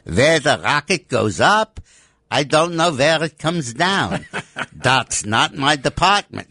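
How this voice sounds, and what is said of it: Put-on German accent. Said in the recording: “a good German accent”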